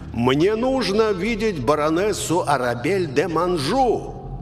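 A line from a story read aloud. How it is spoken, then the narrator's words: Shout into darkness. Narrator (Russian): крикнул во мрак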